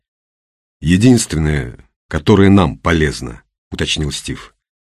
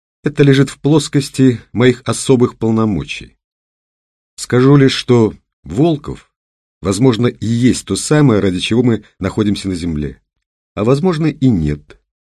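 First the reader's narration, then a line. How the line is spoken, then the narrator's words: Calm addition. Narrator (Russian): спокойно добавила она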